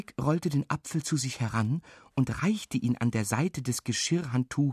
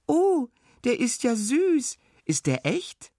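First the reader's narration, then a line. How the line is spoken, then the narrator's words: Calling out. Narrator (German): rief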